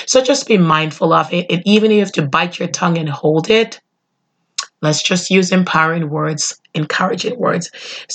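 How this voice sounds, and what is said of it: Nasal, congested voice. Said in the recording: “my voice will be 100%... I think I sound a little nasally. I think I sound like Fran Drescher from The Nanny”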